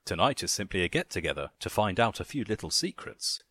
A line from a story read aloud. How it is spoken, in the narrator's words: he chuckled